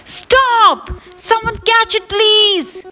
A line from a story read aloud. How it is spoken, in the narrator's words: shouted the old woman